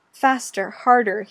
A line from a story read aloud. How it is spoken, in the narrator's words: he pants